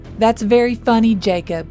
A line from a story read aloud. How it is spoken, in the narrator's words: Noah yelled back